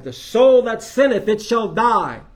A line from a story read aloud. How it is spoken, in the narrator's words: Justice cried